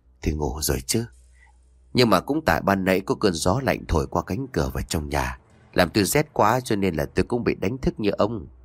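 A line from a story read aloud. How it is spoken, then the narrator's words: Old woman, gentle reply. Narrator (Vietnamese): Bà Hoa nhẹ nhàng trả lời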